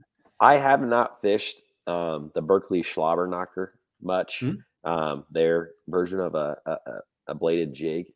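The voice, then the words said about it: Hoarse, failing voice. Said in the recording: “my voice is really starting to go here ... get that, him some tea with some honey”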